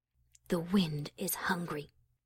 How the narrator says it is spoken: The alicorn closed her eyes and whispered

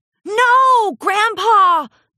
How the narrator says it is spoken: Olivine Jewel shouted

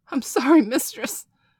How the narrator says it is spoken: Bailey cried out, his poor little ass red and throbbing from a light beating she had given him

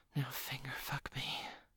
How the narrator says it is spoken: she whispered

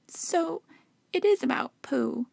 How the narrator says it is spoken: he squeaked

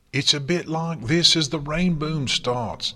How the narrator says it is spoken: Dash shouted over the noise

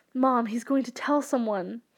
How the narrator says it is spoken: Victor stuttered

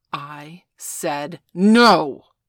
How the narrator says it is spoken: Veronica growled

